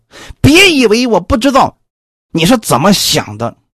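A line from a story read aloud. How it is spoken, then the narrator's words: Woman, very angry. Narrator (Chinese): 这女子……很愤怒的说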